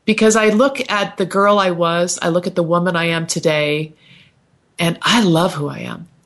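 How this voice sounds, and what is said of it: Tearful, emotional voice. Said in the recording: “I got emotional there. You know, tears are rolling down my cheeks right now”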